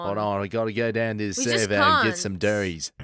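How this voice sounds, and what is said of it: Put-on Australian accent. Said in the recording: “Doing an Australian accent ... An Australian accent.”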